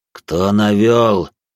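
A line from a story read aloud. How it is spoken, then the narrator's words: Through gritted teeth. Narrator (Russian): процедил начальник отдела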